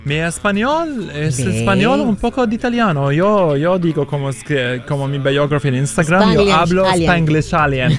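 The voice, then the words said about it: Italian accent in Spanish. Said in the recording (Spanish): “el acento italiano es muy difícil para quitarlo”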